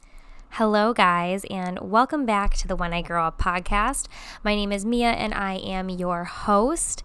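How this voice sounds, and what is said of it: Congested nasal voice. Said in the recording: “as you can hear in my voice, I'm a little congested”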